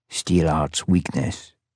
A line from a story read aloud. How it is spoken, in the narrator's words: Abraham said softly